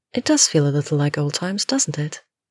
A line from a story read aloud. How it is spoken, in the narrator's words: the brunette replies smoothly